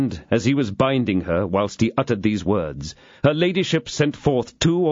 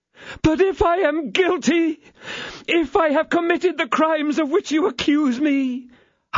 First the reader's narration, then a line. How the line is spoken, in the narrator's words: howled out her ladyship